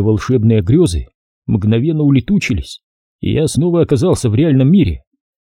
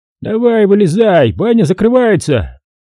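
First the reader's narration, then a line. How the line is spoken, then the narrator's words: Shouting. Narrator (Russian): крикнул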